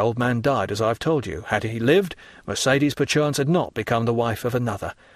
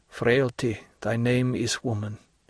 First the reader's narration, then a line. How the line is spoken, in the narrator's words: he murmured